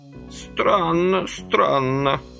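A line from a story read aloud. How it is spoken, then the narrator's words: Somewhat frozen, stiff voice. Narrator (Russian): несколько замороженным голосом приветствовал дедок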